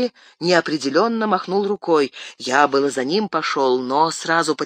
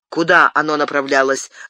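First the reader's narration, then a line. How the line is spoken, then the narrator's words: Sharp question. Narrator (Russian): резко спросил Арагорн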